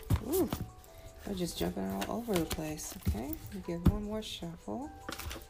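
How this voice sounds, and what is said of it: Weak, low-energy voice. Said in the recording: “my voice isn't that strong”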